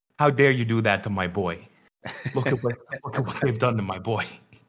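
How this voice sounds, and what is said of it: Badly done put-on accent. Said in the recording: “that horrible accent”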